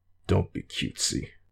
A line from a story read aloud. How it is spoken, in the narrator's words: growled